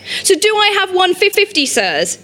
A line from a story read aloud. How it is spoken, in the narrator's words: Genj shouted